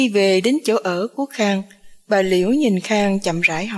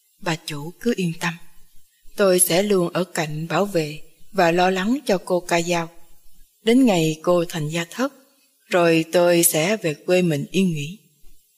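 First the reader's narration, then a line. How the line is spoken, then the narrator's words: Whispering woman. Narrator (Vietnamese): Bà Vũ thì thầm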